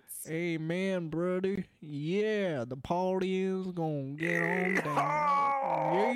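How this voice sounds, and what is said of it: Exaggerated stereotypical Southern accent. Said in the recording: “the stereotypical Southern accent.”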